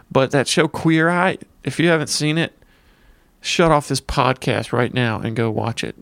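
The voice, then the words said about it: Redneck accent. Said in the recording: “I'm, you know, got the redneck accent.”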